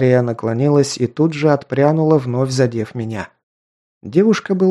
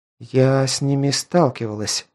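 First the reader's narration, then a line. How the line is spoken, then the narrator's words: Uncertain reply. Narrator (Russian): неуверенно ответила та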